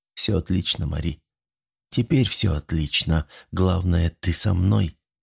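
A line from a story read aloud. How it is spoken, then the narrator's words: Quiet reply. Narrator (Russian): тихо ответил он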